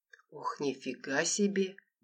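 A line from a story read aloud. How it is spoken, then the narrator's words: Muttered under breath. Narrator (Russian): пробормотал маркиз вполголоса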